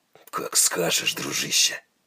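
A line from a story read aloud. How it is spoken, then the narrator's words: Gruff mutter. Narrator (Russian): буркнул Тайкус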